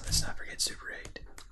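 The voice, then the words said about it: Whispering. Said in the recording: “why you're whispering everything”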